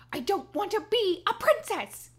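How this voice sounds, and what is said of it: Impression of Princess Diaries heroine. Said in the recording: “Do you like my impression? That's pretty good. ... The impression was good”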